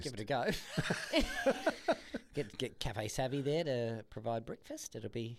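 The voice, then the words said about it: Put-on New Zealand accent. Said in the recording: “I don't want the New Zealand accent with it.”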